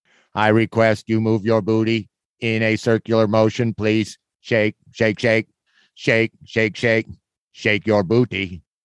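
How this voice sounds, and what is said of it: Robotic cartoon robot voice. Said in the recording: “robot voice ... I learned from cartoons”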